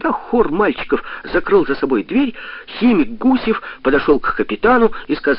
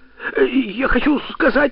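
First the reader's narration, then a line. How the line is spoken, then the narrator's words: Stammering. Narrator (Russian): заикаясь, проговорил Костя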